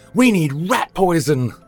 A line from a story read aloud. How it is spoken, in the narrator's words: Victor yelled